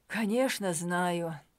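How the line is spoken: Sighing. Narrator (Russian): вздохнул Мануэль Сильва

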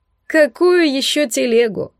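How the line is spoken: Loud laughter. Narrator (Russian): расхохотался Корди

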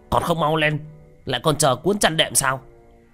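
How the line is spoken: Stern shout. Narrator (Vietnamese): Tên mập nghiêm nghị quát lên

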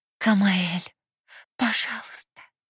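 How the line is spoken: Moaning plea. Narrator (Russian): Простонала

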